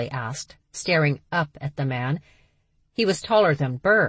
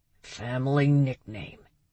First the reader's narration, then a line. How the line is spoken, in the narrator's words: he growled